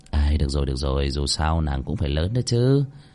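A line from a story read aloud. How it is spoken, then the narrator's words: Muttering. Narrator (Vietnamese): Cơ Linh Vân lẩm bẩm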